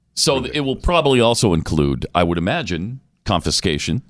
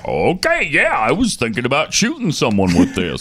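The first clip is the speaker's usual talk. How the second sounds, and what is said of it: Put-on southern New Zealand accent. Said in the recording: “Is that your New Zealand accent? ... What is that? A southern like a New Zealand? ... accent? ... The south part of New Zealand.”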